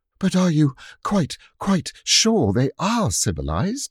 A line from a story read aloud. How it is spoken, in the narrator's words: asked Jane, panting